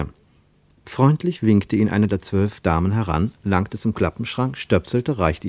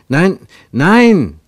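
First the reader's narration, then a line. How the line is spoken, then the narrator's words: Calling out. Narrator (German): rief Ernst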